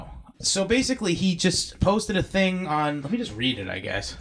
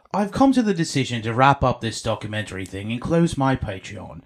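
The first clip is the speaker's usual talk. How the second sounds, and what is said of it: Put-on British accent. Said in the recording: “Should I do it in a British accent?”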